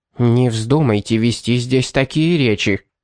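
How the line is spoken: Sharp warning. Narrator (Russian): резким голосом предупредила она

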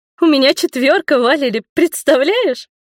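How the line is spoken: Joyful squeal. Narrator (Russian): радостно взвизгнула Беатрис

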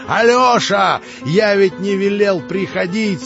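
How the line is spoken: Fierce shout. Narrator (Russian): свирепо крикнул

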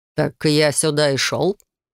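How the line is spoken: Smirking grunt. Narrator (Russian): хмыкнул незнакомец

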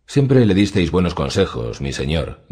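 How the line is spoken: Plain. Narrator (Spanish): dijo Petir

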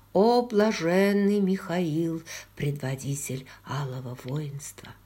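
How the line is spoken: Whispered blessing. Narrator (Russian): шепот благословения

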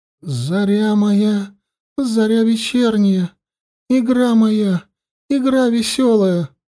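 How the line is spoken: Trembling voice, singing. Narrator (Russian): дрожащим голосом завела Суви

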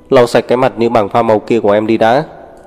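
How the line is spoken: Cold command. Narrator (Vietnamese): lạnh lùng ra lệnh

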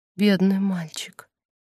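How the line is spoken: Whisper. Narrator (Russian): Она прошептала

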